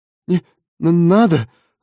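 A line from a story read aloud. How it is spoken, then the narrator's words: Stammering, faltering babble. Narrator (Russian): запинаясь, пролепетал он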